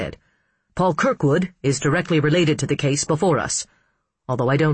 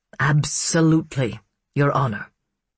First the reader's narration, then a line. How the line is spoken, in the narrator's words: Costello said gravely